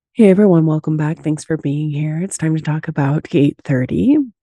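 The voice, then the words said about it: Hoarse, sick-sounding voice. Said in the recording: “I'm sounding a little bit better. The bronchitis is still kicking, so my apologies that my voice sounds like this”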